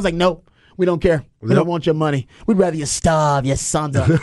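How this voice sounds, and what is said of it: Attempted Philly accent, comes out Boston. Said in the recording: “I get a Boston accent when I'm trying to do a Philly accent.”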